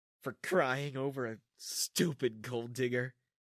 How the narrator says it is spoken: June giggled

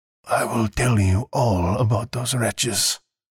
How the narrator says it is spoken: the old man croaked just above a whisper

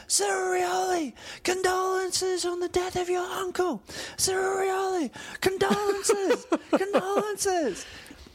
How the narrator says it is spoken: he stands up and starts shouting out

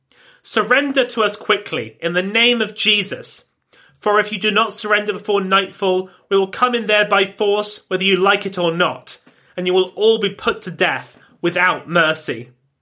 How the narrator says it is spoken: she yelled out at the men on the walls

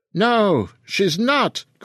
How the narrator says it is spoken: cried the Basque

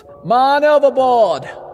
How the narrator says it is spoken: a voice called out from above

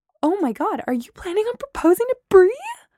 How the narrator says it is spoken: I squealed

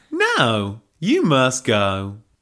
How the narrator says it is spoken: drawled Helga

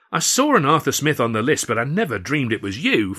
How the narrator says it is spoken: Freddy cried

